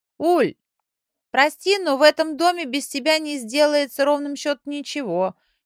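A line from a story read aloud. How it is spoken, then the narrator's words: Shouted from another room. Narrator (Russian): крикнула из комнаты Эля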